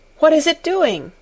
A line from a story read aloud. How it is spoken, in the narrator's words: cried Colin